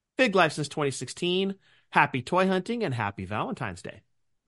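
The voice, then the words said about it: Radio announcer voice. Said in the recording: “you got your radio voice going on over there.”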